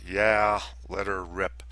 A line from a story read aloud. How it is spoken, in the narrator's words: quietly and reluctantly replied